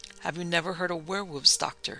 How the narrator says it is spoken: she asked quietly

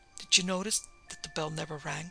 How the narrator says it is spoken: he whispered

